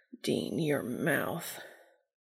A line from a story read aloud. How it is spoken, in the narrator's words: a muttered